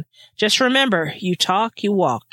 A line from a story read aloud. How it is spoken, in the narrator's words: Chris said sternly